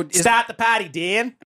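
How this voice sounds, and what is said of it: Attempted Australian accent. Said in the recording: “Australian ... I cannot do an Australian accent.”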